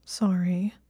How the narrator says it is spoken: she mumbled

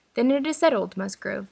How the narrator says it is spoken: cried Captain Wentworth

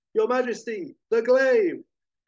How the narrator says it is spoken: loyal guard shouts

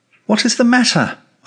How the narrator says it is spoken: queried impatiently

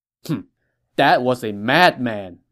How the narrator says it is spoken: Zhang Ren scoffed

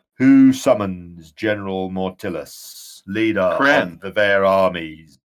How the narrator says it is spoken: in a deep voice, booms out

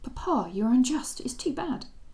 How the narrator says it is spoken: she exclaimed hotly

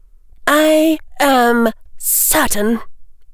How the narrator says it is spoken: Rhys Belka snapped

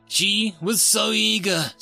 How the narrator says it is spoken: Seven Trolls explained with a tiny sigh

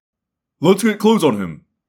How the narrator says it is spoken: Jake snapped, taking charge

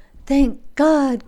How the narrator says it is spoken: cried she

